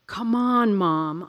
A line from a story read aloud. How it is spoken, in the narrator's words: I pleaded